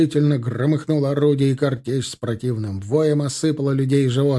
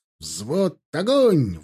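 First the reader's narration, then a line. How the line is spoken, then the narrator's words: Shouted command. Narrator (Russian): выкрикнул Тимофей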